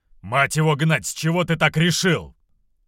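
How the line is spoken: Barked. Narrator (Russian): рявкнул тот

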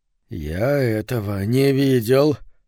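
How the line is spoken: Glum mutter. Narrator (Russian): уныло пробормотал Говард Митла

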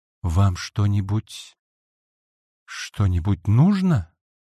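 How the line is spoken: Timid repetition. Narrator (Russian): робко повторила Цунэко

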